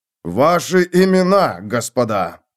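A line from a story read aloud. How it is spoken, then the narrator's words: Growling sergeant. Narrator (Russian): прорычал сержант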